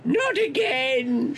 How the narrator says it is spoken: shouted suddenly

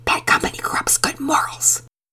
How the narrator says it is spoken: Penelope whispered to Pearson

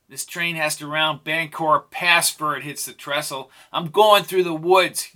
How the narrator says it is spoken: yelled Jake

